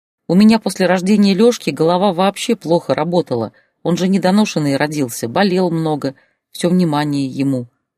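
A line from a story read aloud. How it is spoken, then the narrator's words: Sighing. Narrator (Russian): вздохнула Зоя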